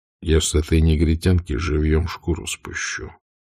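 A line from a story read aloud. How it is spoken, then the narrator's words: Quiet male voice. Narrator (Russian): тихим голосом сказал он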